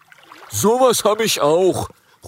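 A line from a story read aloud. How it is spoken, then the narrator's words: Dragon creature calling out. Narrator (German): ruft ein Rüsseldrache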